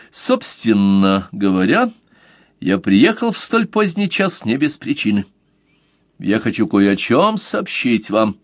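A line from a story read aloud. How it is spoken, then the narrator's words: Sudden official tone. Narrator (Russian): инспектор официальным тоном вдруг заявил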